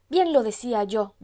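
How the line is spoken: Aunt's shout. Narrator (Spanish): gritó la tía Torcuata

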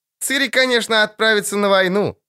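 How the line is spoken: Loud laughing. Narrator (Russian): захохотала Йоля вторая

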